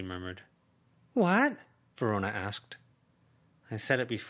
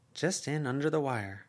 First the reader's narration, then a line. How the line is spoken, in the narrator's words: Verona murmured